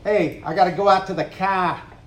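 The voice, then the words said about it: Put-on Boston accent. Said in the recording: “you know where I'm from? ... Boston, right?”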